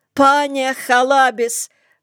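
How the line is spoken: Desperate shout. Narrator (Russian): крикнул отчаянным каким-то голосом

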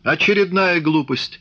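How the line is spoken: Furious exclamation. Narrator (Russian): яростно воскликнул Копарин

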